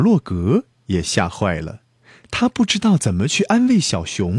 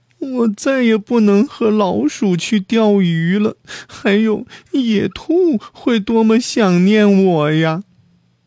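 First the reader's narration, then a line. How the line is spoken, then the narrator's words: Crying. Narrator (Chinese): 他哭着说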